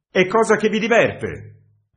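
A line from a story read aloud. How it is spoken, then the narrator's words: Angry shout. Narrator (Italian): gridò il redattore con tono iroso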